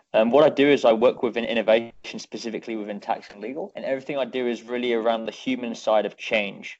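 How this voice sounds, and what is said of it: British English accent. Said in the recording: “originally from the UK, as you can tell by my accent”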